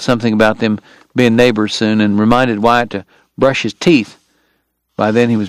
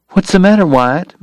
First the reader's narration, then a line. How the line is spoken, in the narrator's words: Maddie asked anxiously